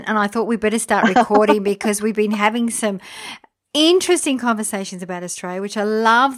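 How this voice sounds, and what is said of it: Australian accent. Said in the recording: “someone who has an Australian accent ... when I hear that Aussie accent, to me, it's like music to my ears”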